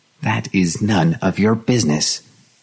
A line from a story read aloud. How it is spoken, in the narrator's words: she said stiffly